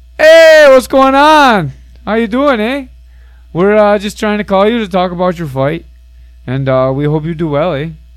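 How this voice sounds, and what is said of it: Poor put-on Canadian accent. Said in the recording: “Are you trying to do a Canadian accent? ... Not so good, huh? ... That's not great.”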